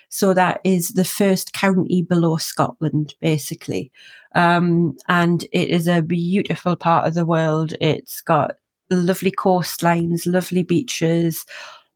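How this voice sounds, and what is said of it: Northumberland English accent. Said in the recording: “my accent from where I'm from is from a place called Northumberland”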